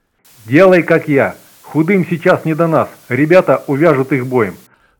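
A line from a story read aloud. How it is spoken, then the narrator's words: Growled into radio. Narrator (Russian): рыкнул в рацию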